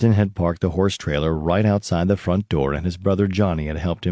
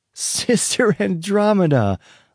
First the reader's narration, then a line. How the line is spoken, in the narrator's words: shouted at the horse